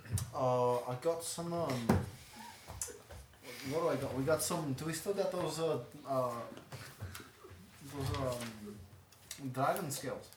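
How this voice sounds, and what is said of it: Thick put-on accent, hard to understand. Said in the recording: “I can't understand you through your accent”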